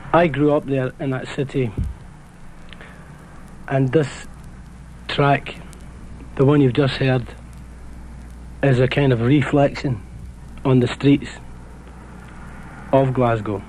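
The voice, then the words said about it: Glasgow Scottish accent. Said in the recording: “If my accent sounds a little bit strange to you, that's because I come from Glasgow, which is in Scotland.”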